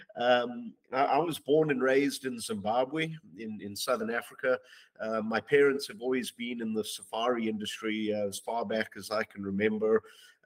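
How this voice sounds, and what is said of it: Southern African English accent. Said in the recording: “my accent isn't a Texas accent. I always joke that it's a deep, deep South Texas accent.”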